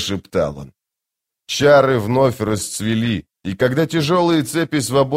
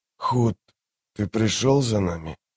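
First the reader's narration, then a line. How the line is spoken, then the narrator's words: Hoarse croak. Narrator (Russian): наружу вырвались лишь хриплые звуки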